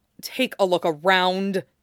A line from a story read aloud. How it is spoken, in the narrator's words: Loki snarled